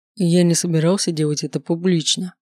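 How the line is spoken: Plain. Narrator (Russian): говорит он

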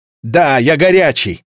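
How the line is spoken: Shouted exclamation. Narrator (Russian): выкрикнул показавшийся в проеме окна Герард

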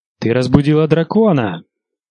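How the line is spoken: Sharp cry. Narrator (Russian): вскрикнул Визерис

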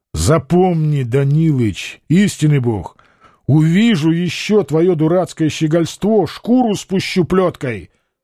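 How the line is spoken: Plain. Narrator (Russian): сказал Петр Алексеевич

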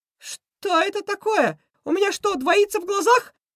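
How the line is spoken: Shout. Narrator (Russian): закричал Крысион

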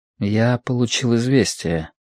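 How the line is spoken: Quiet. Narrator (Russian): тихо сказал Лю

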